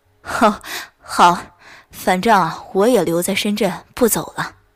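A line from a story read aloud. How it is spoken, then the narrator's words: With a smile. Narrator (Chinese): 老夏笑了笑说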